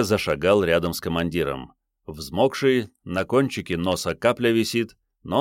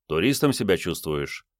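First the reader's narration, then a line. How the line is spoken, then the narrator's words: Gloomy question. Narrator (Russian): мрачно поинтересовался Андрей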